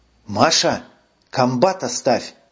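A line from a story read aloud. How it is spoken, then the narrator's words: Whispered. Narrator (Russian): прошептала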